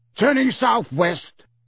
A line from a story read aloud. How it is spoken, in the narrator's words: yelled Moody